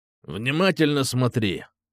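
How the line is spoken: Through gritted teeth. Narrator (Russian): процедил майор

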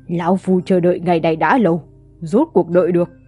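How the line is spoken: Laughing loudly. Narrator (Vietnamese): Con rùa cười to bảo

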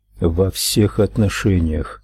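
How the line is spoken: Quiet reply. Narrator (Russian): так же тихо ответил он

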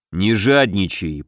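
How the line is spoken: Grumbling. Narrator (Russian): проворчал Илья

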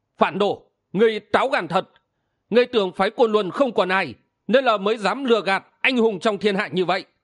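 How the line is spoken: Sudden loud shout. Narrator (Vietnamese): Đột nhiên có tiếng quát lớn

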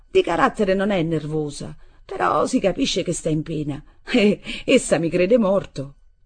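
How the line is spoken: Laughing. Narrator (Italian): dissi ridendo

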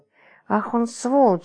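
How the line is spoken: Hissed through teeth. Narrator (Russian): сквозь зубы процедил

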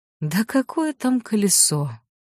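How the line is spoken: Weary old man. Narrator (Russian): устало отмахнулся старик

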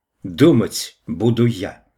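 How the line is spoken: Sharp reply. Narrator (Russian): резко ответила Лидия

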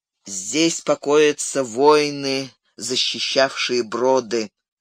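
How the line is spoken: Solemn. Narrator (Russian): торжественно произнес Гэндальф

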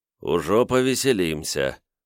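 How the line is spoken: Grim smirk. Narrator (Russian): мрачно усмехнувшись, Любард

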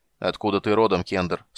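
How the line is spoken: Stern interruption. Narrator (Russian): строго перебил его Дункан

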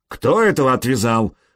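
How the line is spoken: Barked, fat man. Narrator (Russian): рявкнул толстяк

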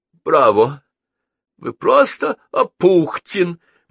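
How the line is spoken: Exclaiming. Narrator (Russian): воскликнул Старжин

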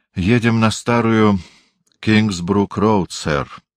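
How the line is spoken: Flat, colorless voice. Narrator (Russian): бесцветным голосом сказал Дрейтон

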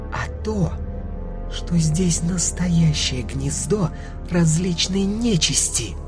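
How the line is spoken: Sinister hiss, then giggle. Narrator (Russian): зашипела Мила, а потом хихикнула

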